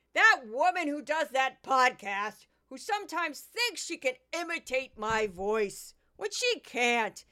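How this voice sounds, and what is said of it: Imitates another person's voice. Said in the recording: “I'm going to do a quick Judge Jeanine”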